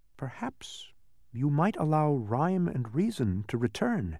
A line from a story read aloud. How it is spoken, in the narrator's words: said Milo softly